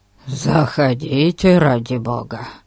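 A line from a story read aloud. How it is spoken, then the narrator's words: Muttered grumble. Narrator (Russian): буркнул Ларкин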